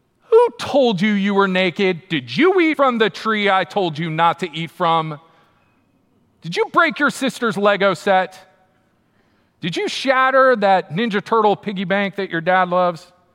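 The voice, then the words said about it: Scolding parent voice. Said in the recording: “in my parenting voice”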